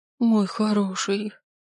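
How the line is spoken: Tearful whisper. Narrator (Russian): шепчет сквозь слезы

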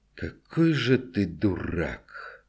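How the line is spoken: Weary quiet muttering through teeth. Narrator (Russian): устало и тихо процедил он

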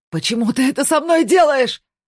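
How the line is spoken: Shout. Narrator (Russian): закричал Бьорн

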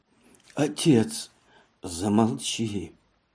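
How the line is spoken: Frightened breathless exhale. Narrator (Russian): выдохнул он, испуганно

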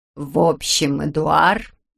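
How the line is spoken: Funereal, somber voice. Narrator (Russian): начала она похоронным голосом

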